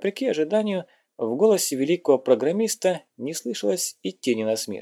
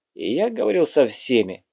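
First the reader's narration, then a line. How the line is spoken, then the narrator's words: Irritated reply. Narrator (Russian): отозвался Норт раздраженно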